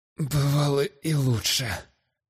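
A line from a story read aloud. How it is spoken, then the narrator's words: Hoarse, strained. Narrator (Russian): Хрипло выдавил Эстуан, выглядя каким-то уж чересчур бледным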